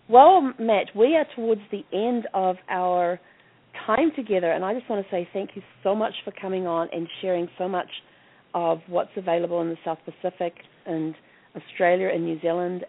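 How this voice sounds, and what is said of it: New Zealand accent. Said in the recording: “people often ask me where my accent is from ... down under and over a bit ... I'm referring to New Zealand.”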